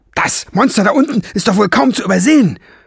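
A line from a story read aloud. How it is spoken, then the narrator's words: Shouting back. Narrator (German): brüllte Lola zurück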